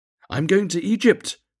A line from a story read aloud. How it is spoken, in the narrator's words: cried the swallow